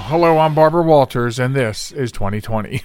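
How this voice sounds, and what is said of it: Imitates a TV host, deeper voice. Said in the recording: “Your voice is a little deeper than hers was.”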